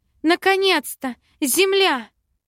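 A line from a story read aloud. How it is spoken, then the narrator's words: Cheerful exclamation. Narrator (Russian): Весело вскричала я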